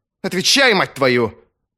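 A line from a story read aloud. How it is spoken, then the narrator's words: Barking angrily. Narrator (Russian): рявкнула Витарий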